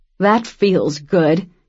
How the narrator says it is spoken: Cam grunted

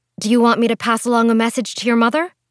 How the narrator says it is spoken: Priscilla sighed

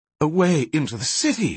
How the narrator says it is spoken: exclaimed Menyon

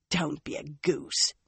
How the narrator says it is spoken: Nynaeve scoffed

